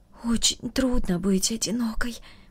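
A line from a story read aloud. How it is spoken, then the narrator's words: Whisper. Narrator (Russian): прошептала она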